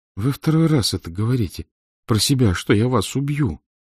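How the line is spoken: Sobbing. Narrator (Russian): всхлипнула Авдотья Романовна

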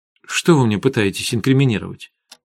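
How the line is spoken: Irritated question. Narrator (Russian): уже раздраженно спросила Арина

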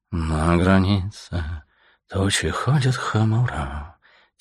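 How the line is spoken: Soft singing under breath. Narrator (Russian): тихонько запел себе под нос свинолуп

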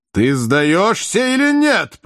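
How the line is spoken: Terrifying shout. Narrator (Russian): прокричал страшным голосом Воланд

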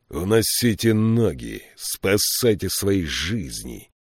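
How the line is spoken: Growling. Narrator (Russian): прорычал Фиколми

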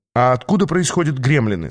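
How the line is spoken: Plain. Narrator (Russian): спросил я

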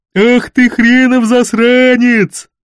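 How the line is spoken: Terrible bass roar. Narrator (Russian): Страшным басом взревел Гайшери

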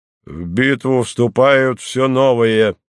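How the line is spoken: Metallic delirious voice. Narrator (Russian): металлическим голосом бредил слухач

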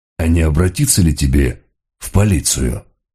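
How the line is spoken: Soft question. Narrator (Russian): мягко спросил Мегре

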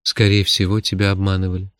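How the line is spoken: Calm objection. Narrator (Russian): спокойно возразил хранитель

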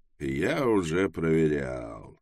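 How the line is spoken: Grim, smirking. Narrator (Russian): мрачно ухмыльнулся Трэвис

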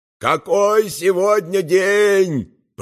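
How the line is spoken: Shouted. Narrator (Russian): прокричал Баудолина

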